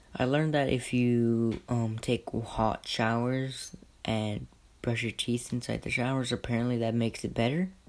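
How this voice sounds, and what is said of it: Sick-sounding voice. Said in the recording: “sorry about my voice, I'm sick right now”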